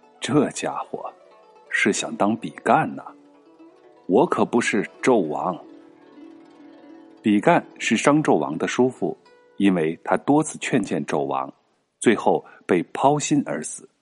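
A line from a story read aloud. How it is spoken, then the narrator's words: Sighing, talking to himself. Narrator (Chinese): 边看边叹气，自言自语的说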